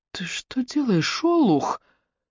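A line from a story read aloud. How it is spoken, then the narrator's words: Hissing. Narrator (Russian): прошипела Руби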